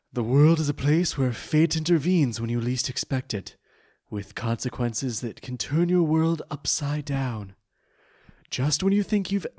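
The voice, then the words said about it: Performed cartoon villain character voice. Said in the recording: “in my Pegasus voice”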